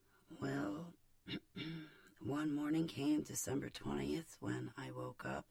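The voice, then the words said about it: Groggy voice. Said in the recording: “my voice is groggy”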